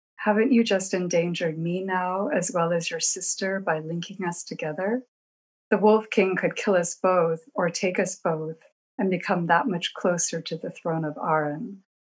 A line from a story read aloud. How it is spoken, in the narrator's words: asked evenly